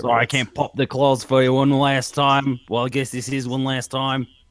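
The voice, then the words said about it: Imitates another person's voice. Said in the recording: “Hugh Jackman... That is Hugh Jackman again.”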